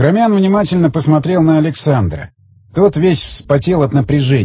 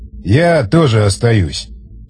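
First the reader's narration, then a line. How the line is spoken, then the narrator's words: Sigh. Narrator (Russian): вздохнул он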